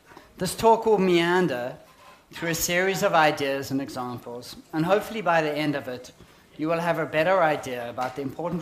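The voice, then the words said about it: South African accent. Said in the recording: “As you can hear from my accent, I'm a South African, born and brought up in Johannesburg”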